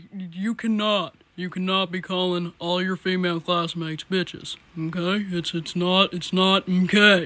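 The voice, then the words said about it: Cartoon character voice impression. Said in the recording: “do an impression of them”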